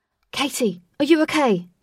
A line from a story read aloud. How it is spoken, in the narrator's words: shouted Wraith